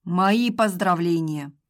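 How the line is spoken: Dry. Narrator (Russian): сухо ответил Сергей

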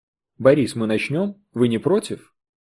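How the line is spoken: Soft, gentle. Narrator (Russian): мягко спросила она

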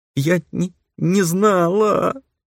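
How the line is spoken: Sobbing loudly. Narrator (Russian): Принялась всхлипывать та, уже рыдая в голосину

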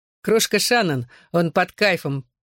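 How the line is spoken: Laughing explanation. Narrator (Russian): продолжая смеяться, объяснил Гипси

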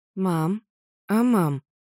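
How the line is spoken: Hesitant. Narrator (Russian): неуверенно подает голос Вайолет

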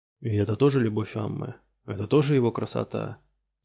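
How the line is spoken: Quiet question. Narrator (Russian): тихо спросил Ромула мастер По

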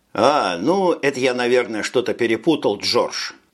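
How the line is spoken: Forced laugh. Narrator (Russian): деланно засмеялся Брейн

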